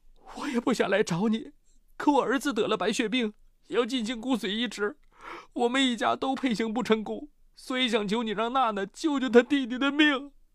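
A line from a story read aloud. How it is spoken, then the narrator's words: Crying, pleading. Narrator (Chinese): 陈菊 哭着说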